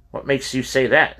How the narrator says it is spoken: Robert said

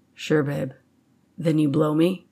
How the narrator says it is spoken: he asked in calm tones

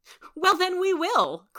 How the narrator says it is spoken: cried Joe with a merry laugh

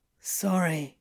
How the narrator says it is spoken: Crowley muttered

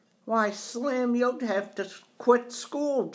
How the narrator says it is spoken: Joe cried out

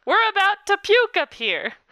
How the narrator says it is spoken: The co-pilot yelled

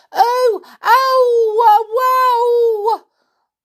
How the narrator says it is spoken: he began to yell

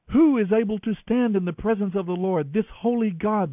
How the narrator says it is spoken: they cried out

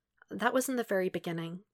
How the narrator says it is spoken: Michiru says softly

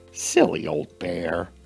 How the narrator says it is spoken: muttered the self-assured mouse

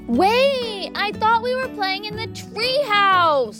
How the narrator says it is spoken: Hattie whined

